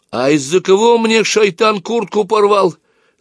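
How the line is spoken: Shout. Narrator (Russian): закричал Валерка

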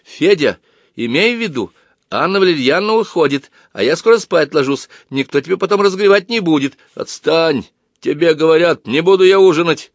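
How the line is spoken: Loud barking shout. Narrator (Russian): Рявкнул Федя так сильно

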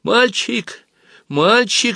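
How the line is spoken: Thin girlish squeak. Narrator (Russian): запищал тонкий девчачий голосок

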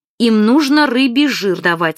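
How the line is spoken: Stern. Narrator (Russian): сказала строго Ира

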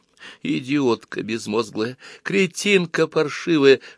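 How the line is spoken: Whisper. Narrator (Russian): шептала она

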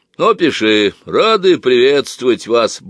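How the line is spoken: Deep booming voice. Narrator (Russian): басил отец

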